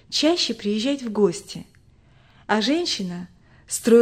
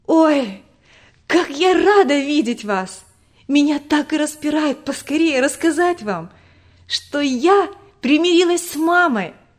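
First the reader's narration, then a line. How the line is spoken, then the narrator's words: Joyful. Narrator (Russian): Радостно говорила Тома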